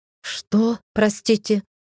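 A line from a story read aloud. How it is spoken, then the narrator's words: Breathless, shaking off daze. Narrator (Russian): выдохнула я, сбрасывая оцепенение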